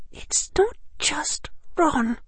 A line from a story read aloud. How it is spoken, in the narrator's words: Hermione said in almost a whisper